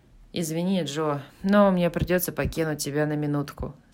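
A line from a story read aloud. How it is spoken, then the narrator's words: Plain. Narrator (Russian): сказал Лори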